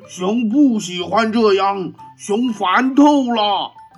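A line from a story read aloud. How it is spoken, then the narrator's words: Loud angry roar. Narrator (Chinese): 他跺着脚，大声吼道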